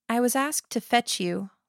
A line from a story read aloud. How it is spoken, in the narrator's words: Lillian said, her voice soft